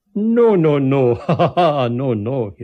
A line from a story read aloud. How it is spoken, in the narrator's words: laughed